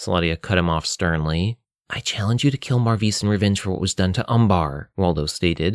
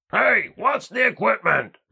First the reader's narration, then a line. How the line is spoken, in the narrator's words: Richter yelled from the next room